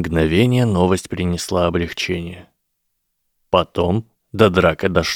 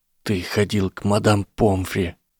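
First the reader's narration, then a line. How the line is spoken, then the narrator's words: Whisper. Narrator (Russian): прошептал он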